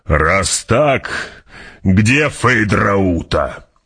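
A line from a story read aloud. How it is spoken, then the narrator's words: Growled. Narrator (Russian): прорычал барон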